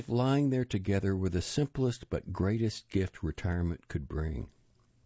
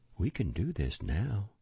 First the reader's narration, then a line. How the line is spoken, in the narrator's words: She'd said to him once softly